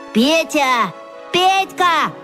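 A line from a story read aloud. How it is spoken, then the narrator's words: Joyful yelling. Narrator (Russian): радостно завопил Вася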